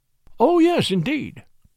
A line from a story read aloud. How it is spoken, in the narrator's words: I exclaimed